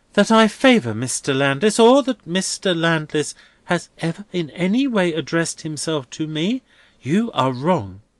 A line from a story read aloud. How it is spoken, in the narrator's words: Rosa pleads with him, turning paler